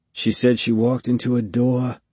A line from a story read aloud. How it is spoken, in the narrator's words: he muttered